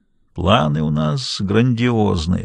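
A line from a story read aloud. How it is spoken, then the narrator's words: Sleepy remark. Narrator (Russian): сонно заметил он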